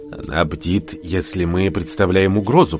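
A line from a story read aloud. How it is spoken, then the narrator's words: Whisper. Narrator (Russian): прошептал Рэмбо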